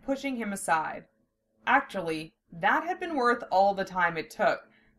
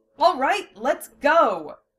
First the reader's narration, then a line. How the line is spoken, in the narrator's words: Lena shouted